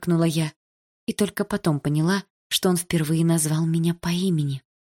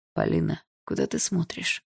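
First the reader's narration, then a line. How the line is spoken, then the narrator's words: Asked in strange voice. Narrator (Russian): странным голосом спросил Барс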